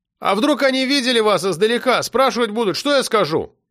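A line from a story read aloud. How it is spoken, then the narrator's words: Shout. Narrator (Russian): крикнул Сережа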